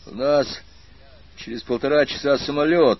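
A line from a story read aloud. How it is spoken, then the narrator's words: Grumbling. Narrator (Russian): только пробурчал он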